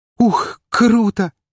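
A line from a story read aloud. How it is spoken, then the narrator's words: Exclamation. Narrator (Russian): воскликнула Арина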